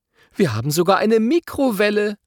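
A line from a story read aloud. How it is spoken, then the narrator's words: Calling from another room. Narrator (German): ruft Mama aus der Küche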